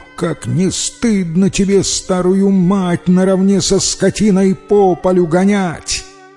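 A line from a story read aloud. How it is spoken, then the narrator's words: Angry shout. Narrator (Russian): тот как закричит на него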